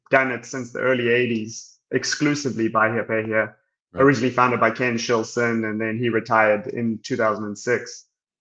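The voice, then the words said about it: South African accent. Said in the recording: “your accent. ... I'm South African, born and raised”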